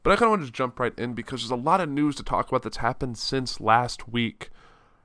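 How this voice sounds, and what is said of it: Congested, stuffy voice from cold. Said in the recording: “I have a little bit of a cold, so my voice is not exactly where it should be ... my sinuses are a little stuffed up, so my voice might sound a little weird”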